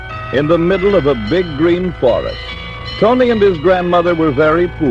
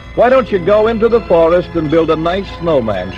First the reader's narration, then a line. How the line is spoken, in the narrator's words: she said